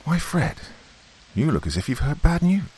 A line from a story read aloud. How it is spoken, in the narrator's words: said my wife, anxiously